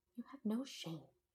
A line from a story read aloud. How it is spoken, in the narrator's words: she whisper-yelled